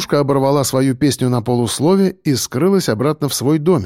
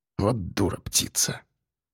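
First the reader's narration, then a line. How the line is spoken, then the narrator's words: Muttering. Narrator (Russian): пробормотал Васильченко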